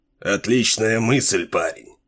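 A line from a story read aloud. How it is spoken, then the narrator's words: Through gritted teeth. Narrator (Russian): Сквозь зубы процедил капитан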